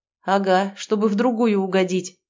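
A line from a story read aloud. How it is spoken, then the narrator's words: Snort. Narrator (Russian): хмыкнул Ян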